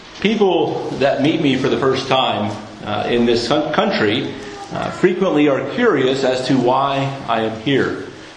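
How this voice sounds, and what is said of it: North American accent. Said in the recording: “They hear my accent, they recognize that I'm either Canadian or American”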